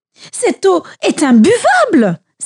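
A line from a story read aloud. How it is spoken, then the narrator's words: Exclamation. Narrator (French): s'écria-t-il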